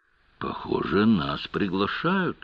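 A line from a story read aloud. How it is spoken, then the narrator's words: Whispered. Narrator (Russian): почему-то прошептала Клади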